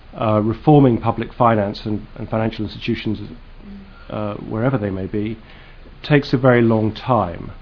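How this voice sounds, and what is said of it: British accent. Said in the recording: “you can tell from my accent I'm British”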